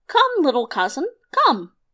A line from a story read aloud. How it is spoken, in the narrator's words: he cried out